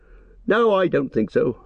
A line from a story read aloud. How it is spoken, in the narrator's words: Merry laughed